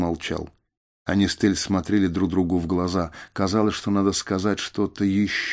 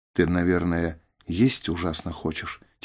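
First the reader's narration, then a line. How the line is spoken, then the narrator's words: Quiet question. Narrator (Russian): тихонько спросила Тель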